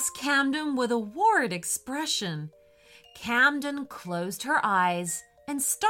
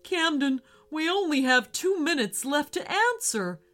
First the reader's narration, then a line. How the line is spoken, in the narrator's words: cried Porter worriedly